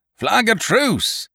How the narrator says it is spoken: cried Silver

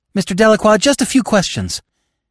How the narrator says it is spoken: a blonde woman called out to him

